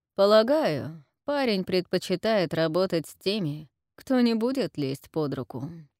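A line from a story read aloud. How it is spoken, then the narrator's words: Pleased chuckle. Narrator (Russian): хохотнул Джим, довольный тем, что сострел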